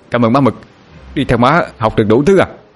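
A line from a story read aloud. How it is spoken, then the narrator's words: Delighted shout. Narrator (Vietnamese): Anh Hùng la lên thống khoái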